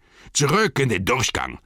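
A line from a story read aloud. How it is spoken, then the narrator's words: Group roaring. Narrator (German): brüllten einige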